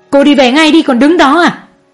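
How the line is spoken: Shouting. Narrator (Vietnamese): Mẹ chú Đại hét lên

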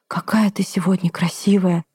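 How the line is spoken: Breathed out. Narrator (Russian): выдохнула

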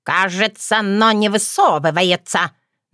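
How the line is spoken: Mocking, crow. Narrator (Russian): насмешливо выдала ворона

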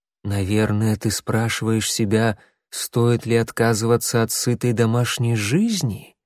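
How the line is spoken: Ingratiating question. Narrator (Russian): вкрадчивым голосом спросила синяя звезда

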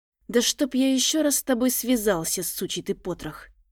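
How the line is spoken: Quiet cursing. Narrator (Russian): тихо выругался Терри

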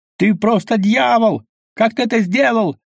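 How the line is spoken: Man yelling. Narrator (Russian): завопил человек

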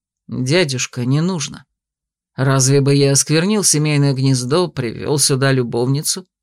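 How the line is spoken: Gentle reproach. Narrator (Russian): Мягко пожурил его мой спутник

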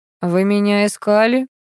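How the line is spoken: Even voice. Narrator (Russian): как всегда ровным голосом спросил Виктор

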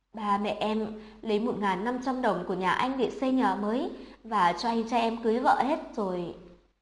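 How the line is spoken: Sobbing, tearful. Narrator (Vietnamese): Từ tuổi lúc này khóc đến sưng đỏ cả mắt, thút thít nói

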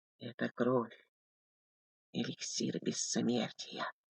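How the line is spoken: Whispered. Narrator (Russian): прошептал Валентин

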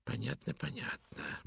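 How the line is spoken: Low mutter, more confident. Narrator (Russian): бормотал вполголоса, но теперь уже более уверенно

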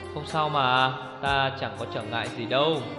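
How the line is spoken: Gentle, smiling young woman. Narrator (Vietnamese): Vị thiếu phụ mỉm cười dịu dàng

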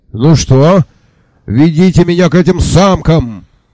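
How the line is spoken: Very loud yelling. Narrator (Russian): Рулен Багдасыс орал так, что посетители начали заинтересованно коситься в нашу сторону

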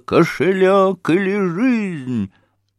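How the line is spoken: Frenzied shout. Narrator (Russian): неистовым голосом прокричала

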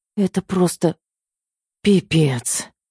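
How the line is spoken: Breathless exhale. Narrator (Russian): выдохнула я

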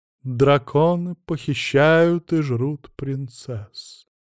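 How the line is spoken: Grave, sepulchral voice. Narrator (Russian): за могильным голосом продолжала вещать княжна Иннесса из старинного рода Адамсов

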